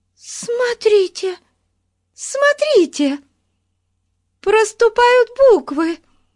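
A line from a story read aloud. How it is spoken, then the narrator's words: Excited shout. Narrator (Russian): возбужденно закричала Бетси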